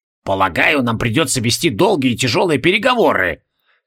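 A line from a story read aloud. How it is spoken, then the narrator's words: Reluctant, hostile, through teeth. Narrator (Russian): неохотно процедил Эйст, с неприязнью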